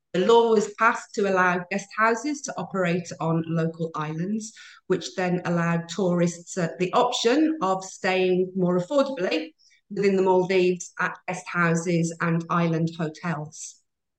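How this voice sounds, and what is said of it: British English accent. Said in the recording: “as you can tell from my accent, I don't originate from the Maldives. I do originate from the UK”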